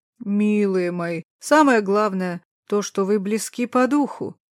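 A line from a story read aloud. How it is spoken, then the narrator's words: Booming woman, jangling jewelry. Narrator (Russian): прогудела мать жениха под аккомпанемент треска своей бижутерии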